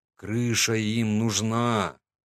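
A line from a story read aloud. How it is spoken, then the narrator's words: Drawl. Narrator (Russian): протянул я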